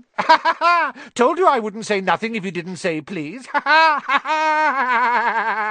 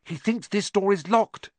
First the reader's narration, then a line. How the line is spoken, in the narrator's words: Harry whispered